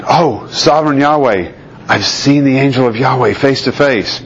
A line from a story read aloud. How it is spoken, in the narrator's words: When Gideon realized that it was the angel of Yahweh, he exclaimed